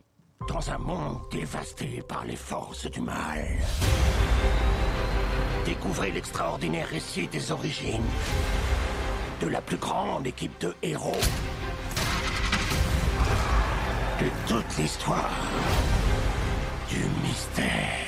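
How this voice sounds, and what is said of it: Dramatic movie trailer voice-over. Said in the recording (French): “tu peux faire la voix off de la bande-annonce”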